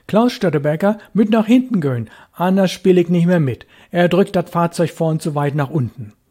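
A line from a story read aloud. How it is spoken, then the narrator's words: Joking call. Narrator (German): Kurt Külper aber, der Spaßige, rief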